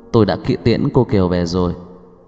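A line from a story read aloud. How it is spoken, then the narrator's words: Quiet. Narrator (Vietnamese): người giúp việc lại nhỏ giọng nói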